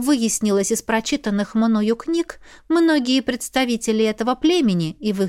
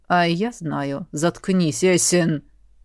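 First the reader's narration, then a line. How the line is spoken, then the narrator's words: Dragon's clipped mutter. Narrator (Russian): Процедил дракон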